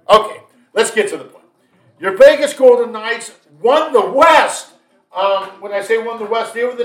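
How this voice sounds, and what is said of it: Usual voice. Nothing is said of it.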